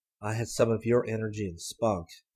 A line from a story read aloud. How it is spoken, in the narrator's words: murmured